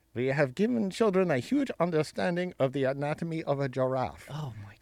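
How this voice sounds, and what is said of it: Put-on Danish accent. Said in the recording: “Now I'm going to do a Copenhagen accent here.”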